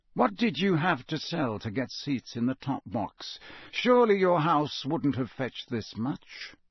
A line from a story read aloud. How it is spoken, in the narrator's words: he said softly